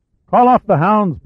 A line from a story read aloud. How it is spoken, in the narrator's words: Pitt shouted